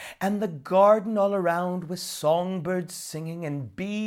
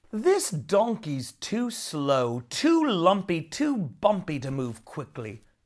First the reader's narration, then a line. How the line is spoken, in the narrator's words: grumbled Nora